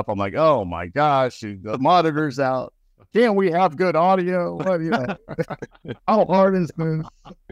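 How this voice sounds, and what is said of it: Imitates another person's voice. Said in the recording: “That's a pretty good impression.”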